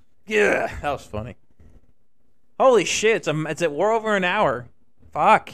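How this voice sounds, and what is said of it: Usual voice. Nothing is said of it.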